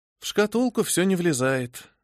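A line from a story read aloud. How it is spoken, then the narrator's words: Sigh. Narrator (Russian): вздохнула я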